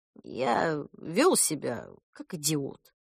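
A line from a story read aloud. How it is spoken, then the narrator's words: Muttering. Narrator (Russian): пробормотал Кент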